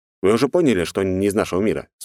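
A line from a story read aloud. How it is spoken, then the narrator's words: Plain. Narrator (Russian): спросил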